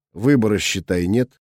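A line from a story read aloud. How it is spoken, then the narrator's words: Dry. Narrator (Russian): сказал я сухо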